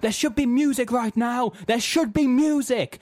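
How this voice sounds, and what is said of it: Attempted American accent, shouting. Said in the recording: “I can't do an American accent, so I'm not going to do it.”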